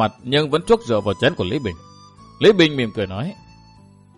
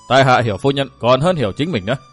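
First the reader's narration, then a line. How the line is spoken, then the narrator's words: Laughing, then speaking. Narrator (Vietnamese): Lý Bình bật cười khanh khách, y cắt tràng cười đó nói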